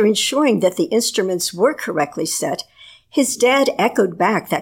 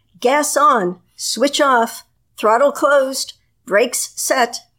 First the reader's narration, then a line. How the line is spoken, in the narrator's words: A fellow aviator standing outside in front of the plane called out